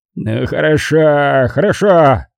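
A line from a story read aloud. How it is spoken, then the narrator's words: Bark. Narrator (Russian): рявкнул Винсетти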